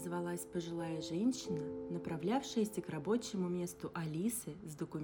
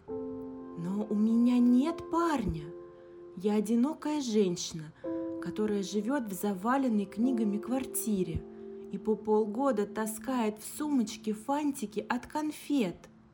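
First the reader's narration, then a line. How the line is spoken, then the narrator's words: Exclamation. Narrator (Russian): воскликнула Алиса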